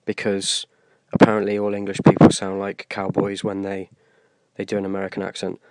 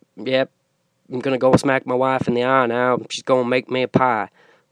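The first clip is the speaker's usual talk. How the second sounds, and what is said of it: Put-on American Southern cowboy accent. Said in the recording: “So I'll do a cowboy, which is pretty much a southern accent ... It's difficult to do a southern accent without being stereotypically”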